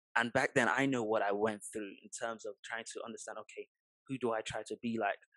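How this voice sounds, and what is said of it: Somewhat British-sounding accent. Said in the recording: “my accent was far from the British accent that it sort of is now”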